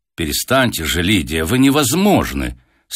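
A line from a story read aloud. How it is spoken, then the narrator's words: Stern. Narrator (Russian): строго заметила Татьяна Аркадьевна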